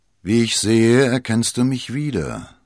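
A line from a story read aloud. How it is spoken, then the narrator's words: Mocking. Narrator (German): höhnte der Mann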